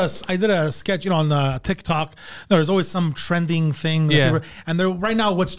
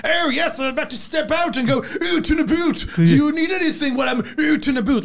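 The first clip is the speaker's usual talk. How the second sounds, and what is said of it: Bad, exaggerated put-on British accent. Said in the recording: “I put on this really shitty British accent ... you're overdoing it”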